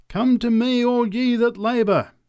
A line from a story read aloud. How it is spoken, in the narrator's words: cried the preacher